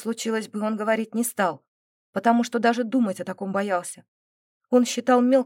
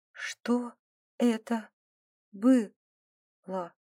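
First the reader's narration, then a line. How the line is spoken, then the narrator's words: Quiet, strained. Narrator (Russian): Тихо произнесла Динара, как только смогла говорить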